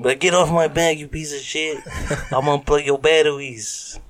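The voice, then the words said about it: Badly done put-on accent. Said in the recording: “that's a terrible accent”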